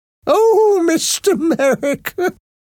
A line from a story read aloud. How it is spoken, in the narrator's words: Nurse Wellington said, laughing